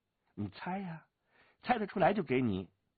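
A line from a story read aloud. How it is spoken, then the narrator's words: Laughing. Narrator (Chinese): 武青薇笑着说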